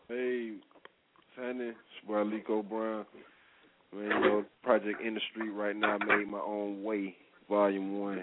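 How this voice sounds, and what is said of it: Deliberately deep voice. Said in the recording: “We got that deep voice on”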